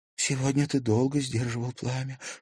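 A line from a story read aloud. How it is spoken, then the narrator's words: Whisper. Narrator (Russian): шепнула Степе Настя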